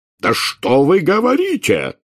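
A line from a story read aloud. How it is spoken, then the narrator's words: Furious barking. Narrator (Russian): в бешенстве рявкнул премьер-министр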